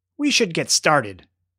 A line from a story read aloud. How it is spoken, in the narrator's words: said Hamlet